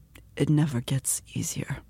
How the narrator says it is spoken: he whispered

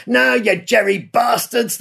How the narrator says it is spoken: yelled

